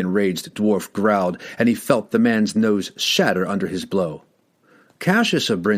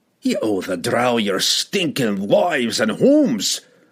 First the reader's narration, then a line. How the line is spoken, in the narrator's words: he roared for all of them to hear